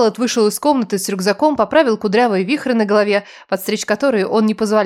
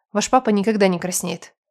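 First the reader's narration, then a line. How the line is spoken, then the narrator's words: Muttering. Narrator (Russian): пробурчала я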